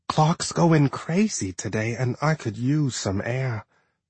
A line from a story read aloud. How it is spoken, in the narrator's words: she whispered